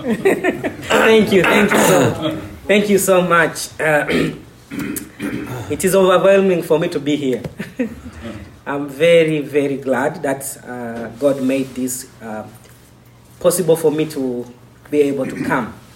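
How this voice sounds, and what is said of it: Non-native accented English. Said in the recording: “my accent is difficult”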